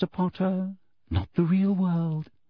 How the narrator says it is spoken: she said softly

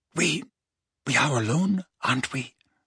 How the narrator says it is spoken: Narcissa asked quietly

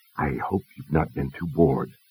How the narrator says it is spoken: Dalton whispered to Teresa

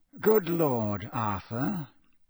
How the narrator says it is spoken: he said softly

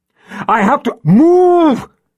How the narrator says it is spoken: he yelled at her

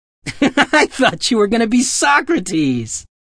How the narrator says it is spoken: George howled between lunatic peals of tin giggles

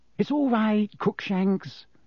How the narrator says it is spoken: Hermione cooed through the wickerwork

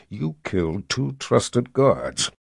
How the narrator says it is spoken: he said through gritted teeth

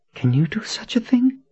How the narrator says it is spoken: She breathed

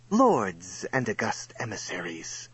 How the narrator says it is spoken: said with an acid hiss

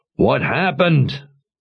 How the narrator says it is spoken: Jigang called out in a rage

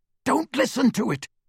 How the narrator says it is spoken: Harry said harshly

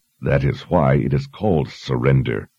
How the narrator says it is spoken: Richard growled

